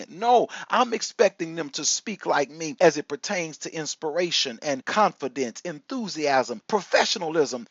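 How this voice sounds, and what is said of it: Slight Texan southern twang. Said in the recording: “I am Texas, and every now and then you can detect a little of that southern twang in my communication”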